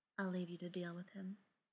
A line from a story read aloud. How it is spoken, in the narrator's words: Brendan said softly